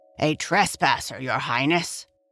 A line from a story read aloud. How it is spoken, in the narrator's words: answered the gardener in his gruff voice